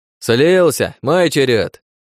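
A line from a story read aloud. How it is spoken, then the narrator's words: Shout. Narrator (Russian): крикнул ещё один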